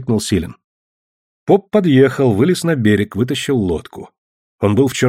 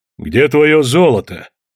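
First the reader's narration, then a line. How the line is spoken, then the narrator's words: Priest asking roughly. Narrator (Russian): грубо спросил поп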